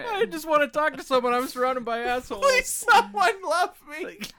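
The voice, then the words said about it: Silly talking butthole voice. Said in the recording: “great butthole impression”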